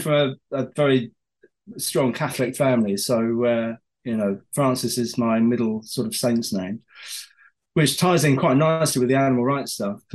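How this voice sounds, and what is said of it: Hoarse, croaky voice. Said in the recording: “I've got a frog in my throat. ... I'm coming down with something right now. So excuse me if I start hacking away.”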